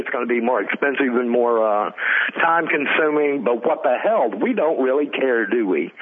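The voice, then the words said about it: Sarcastic tone. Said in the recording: “I'm being sarcastic. ... Director Bassoon is utilizing sarcasm”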